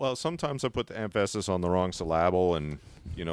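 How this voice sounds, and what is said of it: Usual voice. Nothing is said of it.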